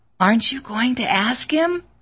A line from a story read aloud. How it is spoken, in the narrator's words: She whispered